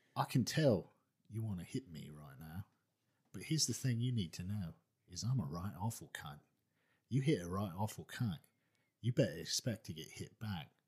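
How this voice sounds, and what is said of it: Low-pitched gruff British character voice. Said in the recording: “Roy Kent, he talks like this ... I have to talk down here ... That's pretty good”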